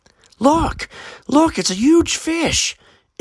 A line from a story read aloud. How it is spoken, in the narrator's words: Aiden's cousin shouted